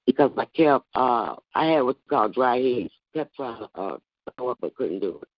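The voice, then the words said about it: Hoarse voice. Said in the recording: “I apologize for my voice. It's so hoarse. ... that's why I'm hoarse.”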